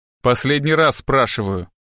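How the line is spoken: Growl. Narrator (Russian): прорычал Страйк

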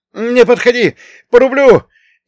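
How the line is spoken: Hysterical yell, wounded man. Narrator (Russian): истерично заорал тот, что со стрелой в боку

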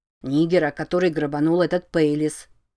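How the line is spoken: Plain. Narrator (Russian): ответил недоносок

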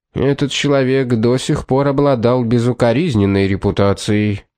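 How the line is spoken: Gloomy tone. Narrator (Russian): мрачным тоном ответил Андерхилл

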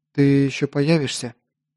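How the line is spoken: Quiet question. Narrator (Russian): Тихо спросила девушка

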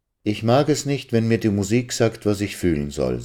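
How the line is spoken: Plain. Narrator (German): sagte sie einmal

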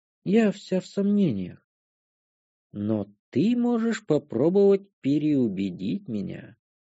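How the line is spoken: Languid female voice. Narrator (Russian): произнесла она томным голосом

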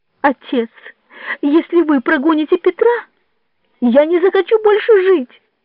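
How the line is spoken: Exclaiming, choking on sobs. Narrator (Russian): воскликнул Джованни, задыхаясь от судорожных рыданий

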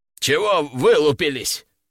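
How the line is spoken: Strained, forced out. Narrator (Russian): только и смог выдавить из себя Горыныч

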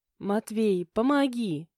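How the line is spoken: Pleading. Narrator (Russian): взмолилась она

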